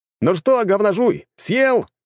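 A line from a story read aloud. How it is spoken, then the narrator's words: Shouting. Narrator (Russian): крикнул ему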